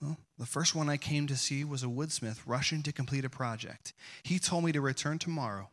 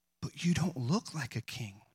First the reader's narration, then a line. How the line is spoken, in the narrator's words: gasped